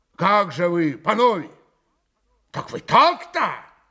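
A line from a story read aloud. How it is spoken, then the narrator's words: Loud resonant voice. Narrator (Russian): Пан Врублевский зычным голосом проговорил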